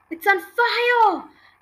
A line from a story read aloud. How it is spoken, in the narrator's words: Grandma yelled